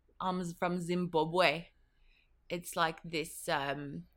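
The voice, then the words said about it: Put-on Zimbabwean, South African-like accent. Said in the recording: “a little, little bit of a Zimbabwean border accent ... like this South African”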